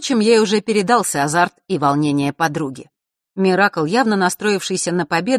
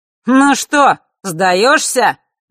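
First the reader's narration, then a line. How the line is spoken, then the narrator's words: Sudden shout. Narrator (Russian): вдруг выкрикнул Нортон-старший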